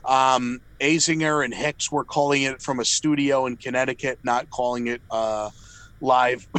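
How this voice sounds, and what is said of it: Slightly off voice from a cold. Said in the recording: “Just getting over a cold. I don't know if you can tell from my voice. It's a little bit off.”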